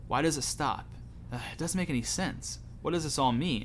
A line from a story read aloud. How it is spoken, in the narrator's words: mumbles to himself